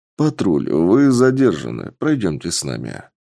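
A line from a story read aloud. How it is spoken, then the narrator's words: Calm voice. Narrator (Russian): спокойным голосом сказал один из бойцов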